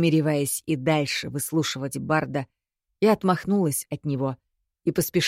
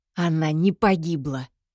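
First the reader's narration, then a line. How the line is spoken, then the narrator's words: Through gritted teeth. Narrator (Russian): Сквозь зубы процедила я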